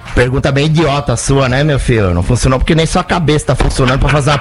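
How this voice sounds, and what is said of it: Imitates another person's voice. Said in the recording (Portuguese): “quando eu faço o Muricy”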